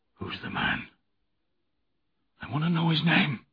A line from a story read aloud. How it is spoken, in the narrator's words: he appeared to wake up and said in a low voice